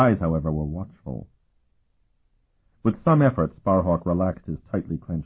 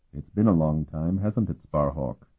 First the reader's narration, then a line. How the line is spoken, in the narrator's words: Martell said in a neutral tone